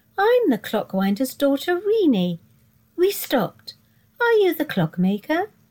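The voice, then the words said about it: Sing-song character voice. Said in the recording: “she said in a singing voice.”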